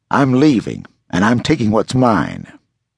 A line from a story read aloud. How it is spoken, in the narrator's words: growled